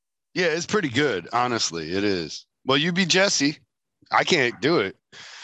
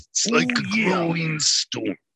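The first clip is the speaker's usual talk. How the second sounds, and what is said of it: Randy Macho Man Savage impression. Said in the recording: “I can try to do the Randy voice ... Randy Macho Man Savage”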